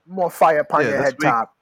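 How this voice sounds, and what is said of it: Unconvincing put-on Jamaican accent. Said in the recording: “where are these Jamaicans that you're imitating? Where are they from? Because they're not from Jamaica.”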